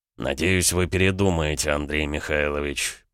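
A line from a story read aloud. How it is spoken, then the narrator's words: Through gritted teeth. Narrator (Russian): процедил граф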